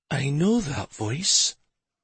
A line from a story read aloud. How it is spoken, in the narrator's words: Stavin turned his head slowly and whispered